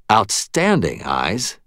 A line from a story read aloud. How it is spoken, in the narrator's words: Murphy said, her voice brightening with genuine pleasure